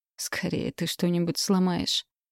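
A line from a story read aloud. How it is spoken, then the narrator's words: Quiet giggle, mother. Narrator (Russian): тихо хихикнула мама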